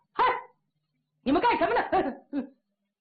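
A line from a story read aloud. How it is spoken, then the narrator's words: Angry shout. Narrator (Chinese): 朱元璋可火了，高喊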